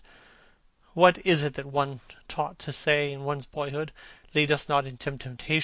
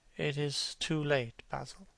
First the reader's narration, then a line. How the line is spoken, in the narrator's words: he murmured